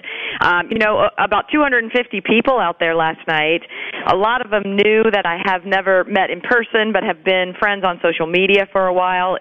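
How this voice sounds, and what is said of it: Hoarse voice. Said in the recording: “Listen to how hoarse my how hoarse my voice is.”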